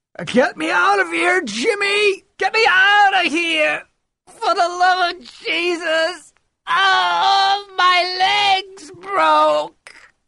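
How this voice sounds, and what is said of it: Screaming, bubbling desperate bellows. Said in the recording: “The screamer began again, great bubbling liquid bellows ... the way he's screaming”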